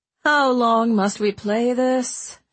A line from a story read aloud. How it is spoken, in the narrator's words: She asked wearily